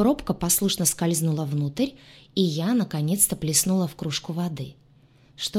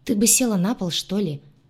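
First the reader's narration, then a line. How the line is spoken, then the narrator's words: Young man sighing. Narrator (Russian): вздохнул парень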